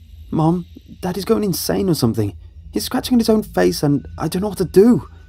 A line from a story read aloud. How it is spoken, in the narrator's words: I frantically shouted